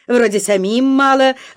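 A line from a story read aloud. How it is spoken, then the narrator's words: Loud. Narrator (Russian): громко сказал Фома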